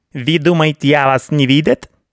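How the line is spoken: Unpleasant shrill voice. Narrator (Russian): Неприятный визгливый голос раздался совсем с другой стороны

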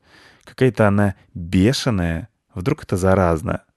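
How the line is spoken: Hissing. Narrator (Russian): Белка зашипела

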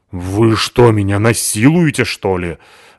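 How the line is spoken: Indignant question. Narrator (Russian): Возмущенно спросила Натаха

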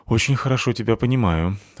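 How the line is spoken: Sighed. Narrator (Russian): вздохнул я

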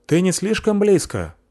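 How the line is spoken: Shouting. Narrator (Russian): закричал капитан продажницы

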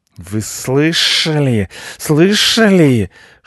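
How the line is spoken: Hissing. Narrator (Russian): шипел Рыжопиус

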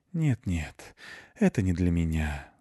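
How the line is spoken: Cat's sigh. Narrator (Russian): вздохнул кот

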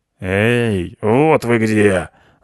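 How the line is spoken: Hoarse smoky voice. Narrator (Russian): раздался хриплый прокуренный голос

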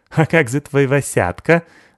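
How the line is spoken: Laughing. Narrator (Russian): засмеялась Сыкиль

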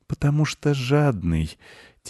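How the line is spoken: Quiet boy's answer. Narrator (Russian): тихо ответил мальчик

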